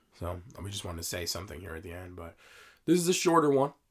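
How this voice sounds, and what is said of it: Strained voice. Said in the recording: “As you can hear, my voice is a little strained”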